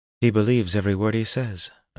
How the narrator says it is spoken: Anura breathed

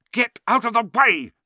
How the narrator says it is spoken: snapped Ron

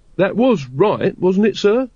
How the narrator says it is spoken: said Carrot anxiously

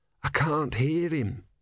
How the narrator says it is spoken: said Brother hoarsely

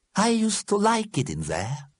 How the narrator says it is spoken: said Einstein wistfully

